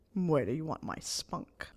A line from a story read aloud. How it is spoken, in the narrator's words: Snape growled